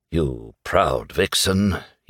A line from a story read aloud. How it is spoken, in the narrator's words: he murmured